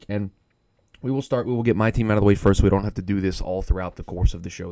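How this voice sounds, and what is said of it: Scratchy, strained voice. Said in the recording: “if my voice sounds a little weird ... still am recovering from screaming my lungs out ... the voice sounds a little scratchy”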